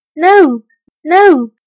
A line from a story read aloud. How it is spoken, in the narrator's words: the children cried